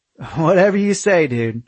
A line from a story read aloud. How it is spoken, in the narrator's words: I laughed